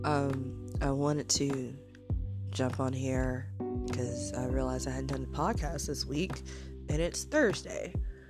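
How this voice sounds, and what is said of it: Scratchy voice from a cold. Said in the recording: “My voice is a little scratched. I have a little cold.”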